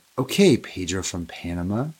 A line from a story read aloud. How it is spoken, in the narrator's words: whispered